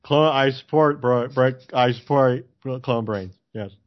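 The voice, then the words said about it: Imitates another person's voice. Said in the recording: “That was my Fetterman imitation.”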